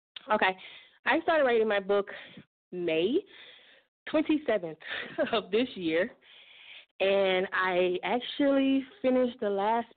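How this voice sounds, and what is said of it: Out of breath speaking. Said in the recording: “I'm a little out of breath. Had a run.”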